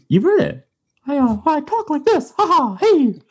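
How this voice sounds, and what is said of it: Mickey Mouse cartoon voice. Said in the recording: “I can do the Mickey voice. ... It's pretty, pretty good. Good Mickey. It's a pretty good Mickey. ... That's like a South Park Mickey. ... It's someone making fun of Mickey”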